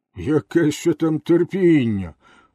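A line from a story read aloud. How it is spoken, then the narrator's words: Owner exclaiming. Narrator (Ukrainian): вигукнув хазяїн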